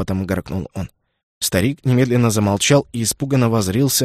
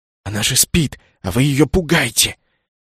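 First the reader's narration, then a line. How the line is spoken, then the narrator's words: Furious scolding whisper. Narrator (Russian): Яростным шепотом выговаривал ему Кеннет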